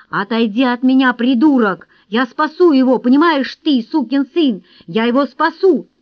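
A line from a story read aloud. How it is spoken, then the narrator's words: Furious shout. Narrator (Russian): Брэндон яростно закричал ему в лицо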